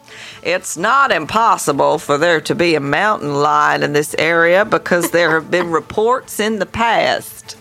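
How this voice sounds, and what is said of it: Morgan Freeman impression, American accent. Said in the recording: “shall I do an accent? ... that was quite good, wasn't it? ... Morgan Freeman.”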